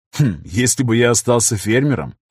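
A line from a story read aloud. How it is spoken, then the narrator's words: Wry snort. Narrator (Russian): хмыкнул Афанасьев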